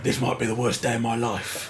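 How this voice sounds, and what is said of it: Jason Statham impression. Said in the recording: “Jason Statham has this line which he tries to make funny ... it's a good imitation.”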